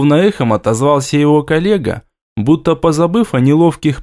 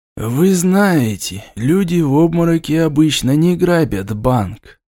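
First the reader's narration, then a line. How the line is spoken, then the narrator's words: Gentle reply. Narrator (Russian): мягко ответили ему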